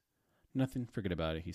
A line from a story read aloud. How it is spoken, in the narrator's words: he said quickly